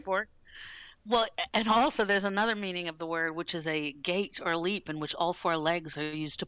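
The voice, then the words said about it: Slightly rough, crusty voice. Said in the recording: “My voice is a bit crusty”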